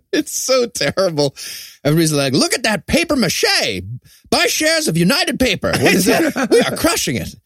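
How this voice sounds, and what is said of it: Old-timey put-on accent. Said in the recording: “In that accent, too.”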